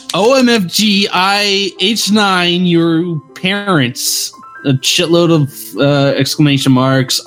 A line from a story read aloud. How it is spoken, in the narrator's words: I screamed